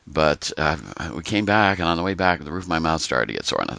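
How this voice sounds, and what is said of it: Lower voice from a cold. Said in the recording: “I came down with a nice cold from there ... that's why my voice is a little down low compared to what it normally is.”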